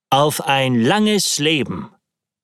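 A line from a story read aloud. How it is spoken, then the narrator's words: Plain. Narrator (German): sagte ich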